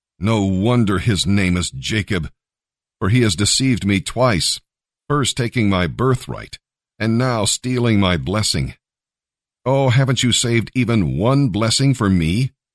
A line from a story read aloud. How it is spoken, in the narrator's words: Esau said bitterly